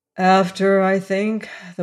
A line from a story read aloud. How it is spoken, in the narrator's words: the warden replied wearily